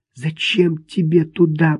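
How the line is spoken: Whispered. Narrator (Russian): прошептала Рут

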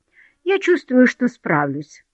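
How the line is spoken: Dry. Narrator (Russian): сказала Дороти сухо

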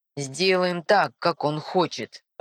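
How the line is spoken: Irritated reply. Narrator (Russian): раздраженно отвечает Амиран

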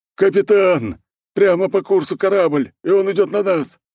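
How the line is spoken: Yelling peasant man. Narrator (Russian): завопил мужичок

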